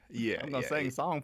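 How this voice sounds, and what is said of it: Exaggerated Hollywood southern accent. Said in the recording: “typical Hollywood southern accent”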